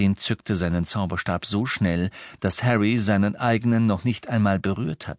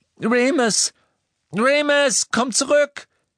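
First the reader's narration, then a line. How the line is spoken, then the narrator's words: Screaming. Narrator (German): schrie Hermine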